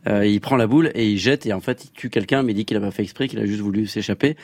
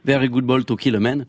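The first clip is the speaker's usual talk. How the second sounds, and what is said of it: Imitated accent of film character. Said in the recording (French): “j'essaie de faire son très bel accent.”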